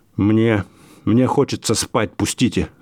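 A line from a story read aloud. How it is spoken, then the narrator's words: Mumbling. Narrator (Russian): забормотал он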